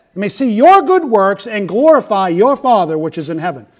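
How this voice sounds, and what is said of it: Loud yelling preacher delivery. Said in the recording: “why are you yelling?”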